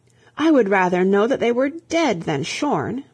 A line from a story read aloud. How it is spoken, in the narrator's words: In despair, the old queen cried out